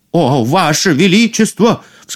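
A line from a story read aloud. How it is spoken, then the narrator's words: Startled cry. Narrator (Russian): вскрикнул повар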